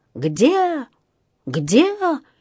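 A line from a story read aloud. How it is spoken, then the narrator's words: Frantic scream. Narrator (Russian): истошно завопил он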